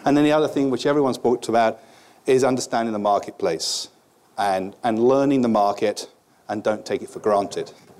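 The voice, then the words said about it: British accent. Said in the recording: “as you can tell from the accent, about 15 years ago, I came to America ... British tie”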